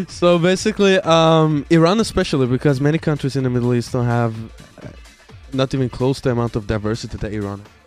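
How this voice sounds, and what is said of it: Mixed foreign accent in English. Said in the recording (Persian): “آقا این لهجت کجاییه؟ ... is a mix of Swedish, German, British, American, Persian ... I'm trying to figure out what accent is this”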